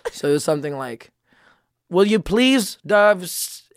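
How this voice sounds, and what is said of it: Poor put-on Filipino parent accent. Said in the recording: “this Filipino parent accent ... not knowing how this accent's supposed to go ... that was the worst fucking accent ever”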